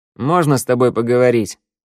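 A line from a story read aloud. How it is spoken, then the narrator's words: Tired question. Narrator (Russian): устало спросил Раду у Вика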